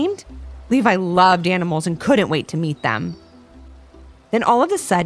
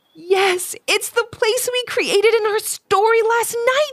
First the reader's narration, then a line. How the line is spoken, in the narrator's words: she said in a stunned voice